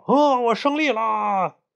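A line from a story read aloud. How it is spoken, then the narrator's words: Smug shouting. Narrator (Chinese): 那只大招潮蟹 洋洋得意的以为自己赢了，大喊道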